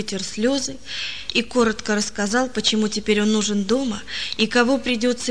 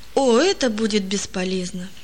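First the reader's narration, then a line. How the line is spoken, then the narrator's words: Heavy sigh. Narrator (Russian): тяжело вздохнул Палка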